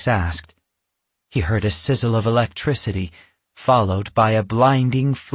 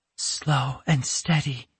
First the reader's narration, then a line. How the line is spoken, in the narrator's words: Yasmin whispered